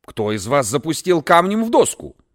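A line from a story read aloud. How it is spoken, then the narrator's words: Stern teacher. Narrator (Russian): строго спросил учитель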